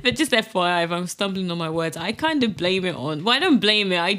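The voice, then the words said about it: English accent. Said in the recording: “I have picked up the English accent,”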